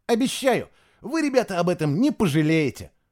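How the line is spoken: Cheerful assurance. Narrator (Russian): радостно заверил Фишер

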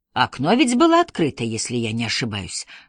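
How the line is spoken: Muttered. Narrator (Russian): пробормотал Эркюль Пуаро

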